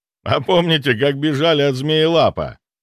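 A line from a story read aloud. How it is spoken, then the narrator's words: Laughing question. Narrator (Russian): расхохотавшись, спросил охотник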